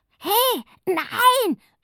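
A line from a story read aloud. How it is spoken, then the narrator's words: Shouting woman. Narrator (German): schreit sie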